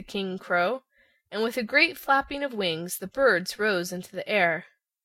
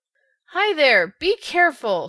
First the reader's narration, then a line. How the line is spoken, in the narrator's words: shouted the Scarecrow to the crows